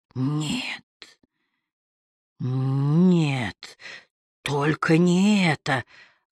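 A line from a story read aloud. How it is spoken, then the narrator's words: Muttering. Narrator (Russian): бормотал Берт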